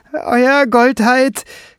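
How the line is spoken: Shrieking. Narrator (German): kreischte er

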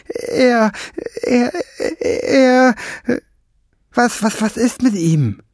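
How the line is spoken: Stammering. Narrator (German): stammelte Fliegenbein

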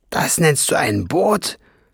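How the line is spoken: Aghast hissing snap. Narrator (German): fauchte Schwefelfell entgeistert

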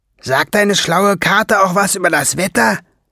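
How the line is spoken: Calling out. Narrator (German): rief Schwefelfell Ben zu

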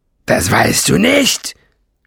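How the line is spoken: Very loud roar. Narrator (German): Nesselbrand brüllte so laut

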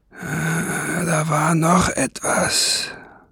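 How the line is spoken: Murmured. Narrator (German): murmelte

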